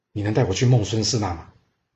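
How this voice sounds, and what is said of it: Quiet, hushed voice. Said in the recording (Chinese): “小小声的”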